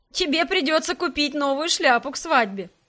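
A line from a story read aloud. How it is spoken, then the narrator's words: Child laughing. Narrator (Russian): сказал, смеясь, малыш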